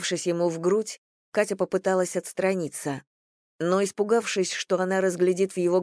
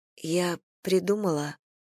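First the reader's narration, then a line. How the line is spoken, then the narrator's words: Breathy mumble. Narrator (Russian): пробормотала она, горячо дыша ему в ключицу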